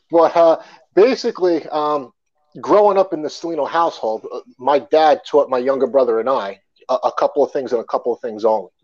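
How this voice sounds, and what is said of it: Long Island New York accent. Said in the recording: “I'm from Long Island, New York... We got that with the accent.”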